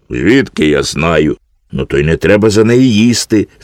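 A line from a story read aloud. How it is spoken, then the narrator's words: Child laughing. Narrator (Ukrainian): засміявся малий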